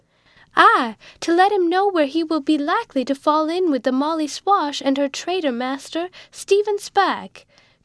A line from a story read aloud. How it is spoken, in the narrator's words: cried Jack Tyr